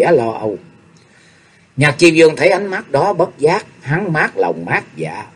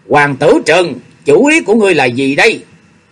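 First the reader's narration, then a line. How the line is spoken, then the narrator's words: Loud angry shout. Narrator (Vietnamese): Chu Dẫn Văn lớn tiếng quát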